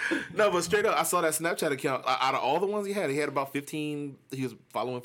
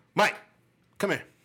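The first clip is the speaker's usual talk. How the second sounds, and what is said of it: Stern authoritative dad voice. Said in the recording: “Dad voice. ... You gotta deepen that voice. ... it's the authority.”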